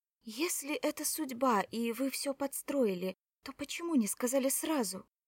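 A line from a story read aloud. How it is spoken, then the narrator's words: Moaning woman. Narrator (Russian): Кора застонала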